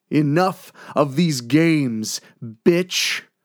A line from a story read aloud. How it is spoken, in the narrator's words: called out with a sneer